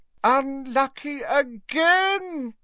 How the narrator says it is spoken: cried Slughorn dramatically

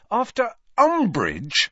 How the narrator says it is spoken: said Harry angrily

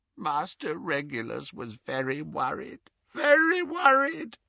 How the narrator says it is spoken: croaked Creature

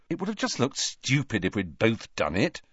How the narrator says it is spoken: said Harry irritably

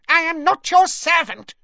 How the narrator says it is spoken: he squeaked

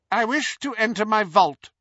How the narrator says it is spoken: said Hermione

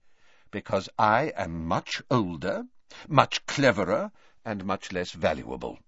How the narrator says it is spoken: said Dumbledore

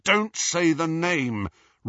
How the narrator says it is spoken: Ron cut across her, his voice harsh

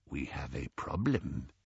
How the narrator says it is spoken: said the goblin softly

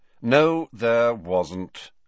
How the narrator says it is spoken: said Snape in a bored voice

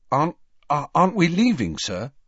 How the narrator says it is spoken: Harry asked anxiously

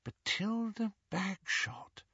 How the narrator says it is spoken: murmured Hermione

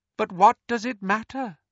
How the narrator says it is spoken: He said softly

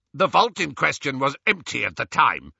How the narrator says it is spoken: snapped the goblin

